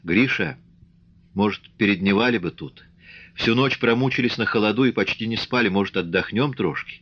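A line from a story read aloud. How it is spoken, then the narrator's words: Timid suggestion. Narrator (Russian): Аксинья робко предложила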